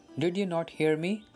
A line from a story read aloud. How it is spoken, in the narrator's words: he asked